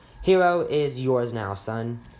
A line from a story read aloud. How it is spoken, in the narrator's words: Ben's dad said